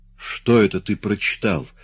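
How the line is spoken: Incredulous exclamation. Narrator (Russian): воскликнул Имре, не желая верить собственным ушам

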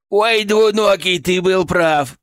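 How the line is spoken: Laughing. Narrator (Russian): прохохотал он

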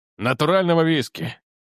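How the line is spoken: Burdock's sigh. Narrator (Russian): вздохнул репейник

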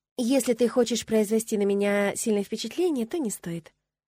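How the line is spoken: Calm. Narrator (Russian): спокойно произнесла я

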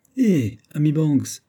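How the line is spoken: Exclaimed. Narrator (French): s'écria Hod

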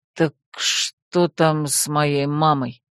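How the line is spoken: Creepy hoarse baritone. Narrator (Russian): уточнила я все тем же жутким хриплым баритоном

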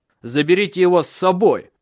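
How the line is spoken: Shout. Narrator (Russian): крикнул

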